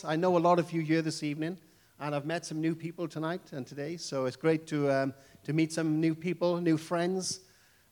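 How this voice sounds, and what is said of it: Welsh English accent. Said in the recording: “speak Welsh English, which is very, very different... my accent”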